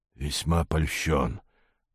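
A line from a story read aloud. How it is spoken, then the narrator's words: Strangled hiss. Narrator (Russian): прошипел сдавленный голос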